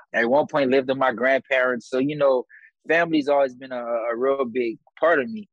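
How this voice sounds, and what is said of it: Louisiana Breaux Bridge regional accent. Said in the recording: “when people ask me where I'm from, because it always comes from the accent. And uh, I tell them I'm from Breaux Bridge”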